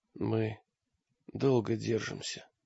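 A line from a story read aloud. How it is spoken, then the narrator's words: Barely audible reply. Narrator (Russian): ответил мрак едва слышно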